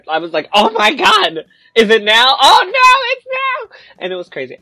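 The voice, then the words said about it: Yelling excitedly. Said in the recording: “I'm sorry, I'm yelling.”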